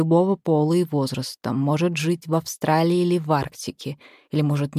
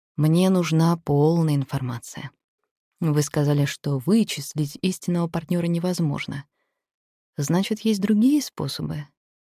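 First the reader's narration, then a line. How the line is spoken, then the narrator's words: Sighed. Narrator (Russian): Библиотекарь вздохнул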